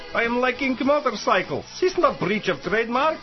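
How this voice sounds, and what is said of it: Exaggerated put-on Yugoslav accent. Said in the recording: “my ridiculous accent ... I am Yugoslav”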